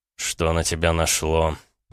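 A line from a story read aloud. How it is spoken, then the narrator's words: Strained, through gritted teeth. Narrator (Russian): процедил Гаранин, стараясь сбросить с себя упирающуюся кошку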